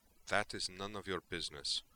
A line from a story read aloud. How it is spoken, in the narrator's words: Tally replied curtly